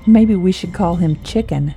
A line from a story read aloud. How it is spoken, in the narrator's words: Jade laughed